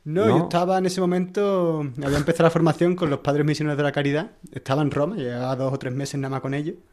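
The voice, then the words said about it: Sevillian Spanish accent. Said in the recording (Spanish): “Yo soy de Sevilla. ... creo que el acento te delata.”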